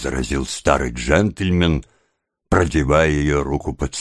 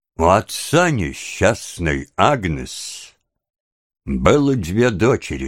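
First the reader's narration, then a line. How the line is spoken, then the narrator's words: Plain. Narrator (Russian): сказал мистер Браунлоу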